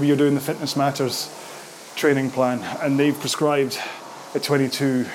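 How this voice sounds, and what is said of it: Usual voice. Nothing is said of it.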